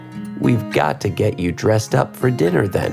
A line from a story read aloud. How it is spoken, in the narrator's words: Brittany giggled and said